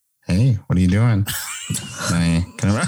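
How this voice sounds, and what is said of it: Impression of a friend's voice. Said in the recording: “your impression of Nox”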